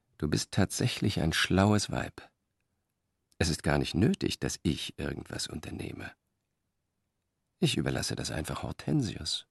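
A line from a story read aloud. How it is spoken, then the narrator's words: Said quietly. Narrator (German): sagte er leise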